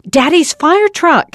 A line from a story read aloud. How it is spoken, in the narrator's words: Henry cried